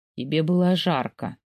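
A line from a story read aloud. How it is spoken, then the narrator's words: Lazy yawning man. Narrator (Russian): лениво зевает мужчина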